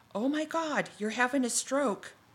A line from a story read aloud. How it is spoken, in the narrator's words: then exclaimed